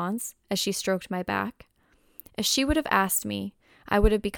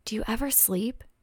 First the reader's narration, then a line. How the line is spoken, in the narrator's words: she whispered through the darkness